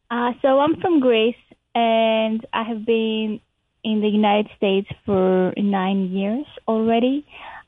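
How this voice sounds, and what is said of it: Non-American foreign accent. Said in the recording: “you have an accent. So that's not a California accent”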